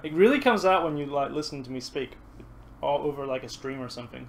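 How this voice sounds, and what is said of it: Mixed American-Canadian accent, slight Kiwi twang. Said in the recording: “American Canadian-y sounding hybrid. Monstrosity that I have ... my weird mongrel accent ... You still have that kind of twang though, you know, like you still kind of hear a bit of New Zealand in there ... the first thing it just popped in my head was American.”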